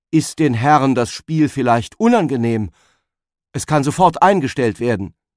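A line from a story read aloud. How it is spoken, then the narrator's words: Calling out. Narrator (German): der Vater rief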